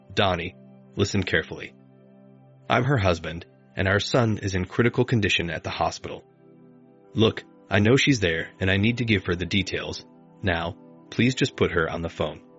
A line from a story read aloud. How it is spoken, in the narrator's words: In an assertive, controlled voice, I said